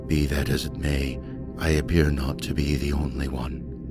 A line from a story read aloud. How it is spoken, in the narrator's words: the speaker said, quite calmly